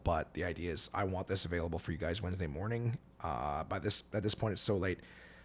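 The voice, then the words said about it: Dry, hoarse, tired voice. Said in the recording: “I'm exhausted. I'm super dry and hoarse still”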